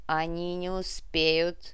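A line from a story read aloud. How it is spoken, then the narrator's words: Growled. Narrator (Russian): прорычала Кара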